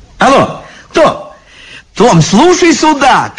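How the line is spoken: Shouting into phone. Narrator (Russian): кричала в трубку библиотекарша

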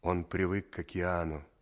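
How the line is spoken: Sad. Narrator (Russian): сказал Саша грустно

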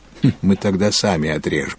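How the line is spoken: Laughing. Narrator (Russian): засмеялся Филипп

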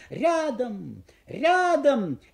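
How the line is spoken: Shouting to dogs. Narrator (Russian): владельцы кричали собакам

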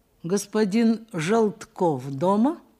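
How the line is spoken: Plain question. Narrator (Russian): спросил Николай Николаевич

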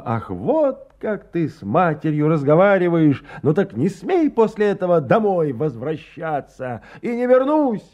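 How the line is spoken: Shouted back. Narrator (Russian): крикнул в ответ Сережа

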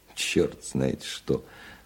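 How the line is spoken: Softened voice. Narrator (Russian): Вслух размягченным голосом произнес он

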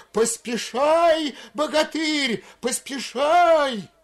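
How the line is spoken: Yelled in unison. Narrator (Russian): в один голос завопили

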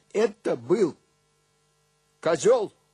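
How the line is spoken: Loud and calm. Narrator (Russian): сказал я громко и спокойно

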